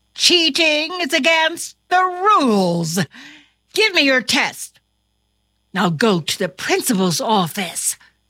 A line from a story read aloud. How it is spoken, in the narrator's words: exclaimed his teacher